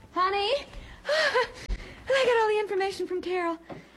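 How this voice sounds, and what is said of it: Breathless, out of breath. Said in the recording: “I'm out of breath.”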